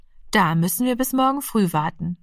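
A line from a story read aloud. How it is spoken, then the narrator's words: Plain, mother. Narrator (German): sagte die Mutter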